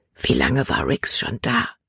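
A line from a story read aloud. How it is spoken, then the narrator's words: Whispering. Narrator (German): flüsterte sie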